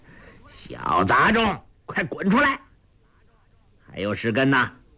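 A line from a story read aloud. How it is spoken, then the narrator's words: Sneering loud shout. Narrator (Chinese): 欧阳锋冷笑一声，高声喝道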